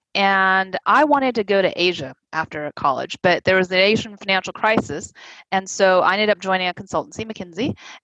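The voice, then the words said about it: American accent. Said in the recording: “you can probably tell from my accent, I am American.”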